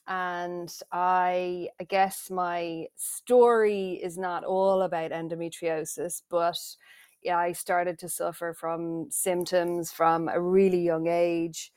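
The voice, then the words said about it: Irish accent. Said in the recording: “the accent is a dead giveaway. I am Irish.”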